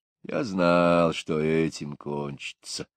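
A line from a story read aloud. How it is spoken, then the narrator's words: Muttered. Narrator (Russian): пробормотал Пэмп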